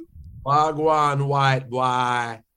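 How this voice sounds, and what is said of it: Put-on Jamaican accent. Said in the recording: “talking Jamaican”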